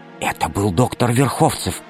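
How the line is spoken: Whisper. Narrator (Russian): прошептала Алиса

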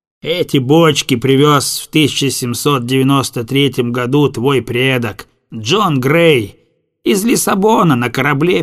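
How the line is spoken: Focused and grim. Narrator (Russian): Пальдешок сосредоточенно и мрачно заканчивал

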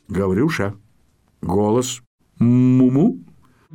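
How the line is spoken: Calm command. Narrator (Russian): спокойно так скомандовал

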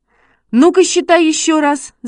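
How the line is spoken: Shouted. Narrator (Russian): закричал Шишкин

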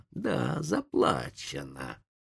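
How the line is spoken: Hissed. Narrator (Russian): прошипел индеец

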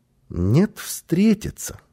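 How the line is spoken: Calm child reply. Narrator (Russian): спокойно ответил малыш

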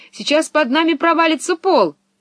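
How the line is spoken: Shouting. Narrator (Russian): Пеппи закричала

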